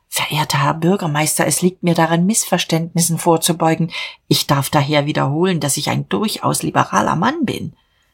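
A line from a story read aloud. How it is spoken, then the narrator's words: Trembling whisper. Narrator (German): flüsterte bebend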